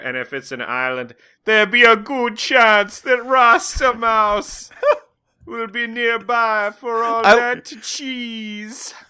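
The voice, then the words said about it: Slips into Rasta Mouse character accent. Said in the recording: “you started slipping into the Rasta Mouse accent a little bit before you did the quote”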